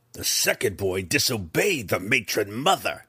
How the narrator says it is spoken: Breeza snarled, a rehearsed interruption

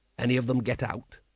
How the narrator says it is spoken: under his breath he said

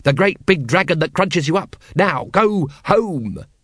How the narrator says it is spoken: shouted Vimes

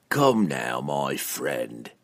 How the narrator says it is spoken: Entreri purred

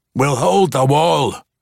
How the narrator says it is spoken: Brunner growled at Jarlaxle

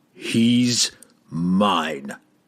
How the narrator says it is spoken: the barbarian said grimly

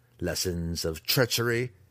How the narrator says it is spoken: Zack spat, too angry to care about the consequences

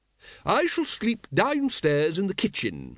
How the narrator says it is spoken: said Lady Ramkin cheerfully

